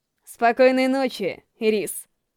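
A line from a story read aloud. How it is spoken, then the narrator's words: Gentle. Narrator (Russian): Ласково говорила она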